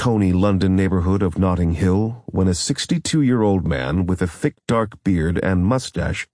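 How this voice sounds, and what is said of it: Usual voice. Nothing is said of it.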